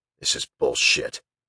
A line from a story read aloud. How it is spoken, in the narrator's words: Teague muttered